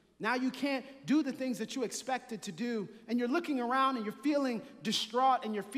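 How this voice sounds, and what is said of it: Usual voice. Nothing is said of it.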